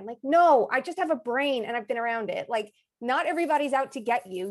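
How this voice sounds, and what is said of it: Strong Long Island accent. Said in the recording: “your accent ... it's not that bad ... It's strong for ... strong island ... Long Island”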